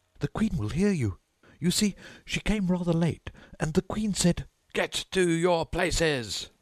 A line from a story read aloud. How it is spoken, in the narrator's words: shouted the Queen in a voice of thunder